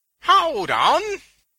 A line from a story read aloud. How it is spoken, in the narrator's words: Venus cried